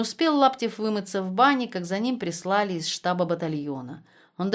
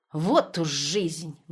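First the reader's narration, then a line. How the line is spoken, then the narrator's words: Grumbling. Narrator (Russian): ворчала теща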